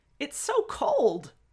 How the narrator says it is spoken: at the first touch on their feet, Wei Ying yelped

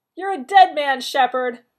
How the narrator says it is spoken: Rodney yelled back

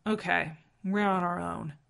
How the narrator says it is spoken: John said firmly

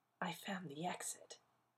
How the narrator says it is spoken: whispered

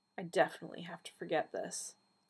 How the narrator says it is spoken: he muttered

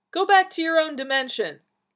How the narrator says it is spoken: the man called out

